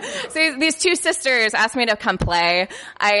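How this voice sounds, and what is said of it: Usual voice. Nothing is said of it.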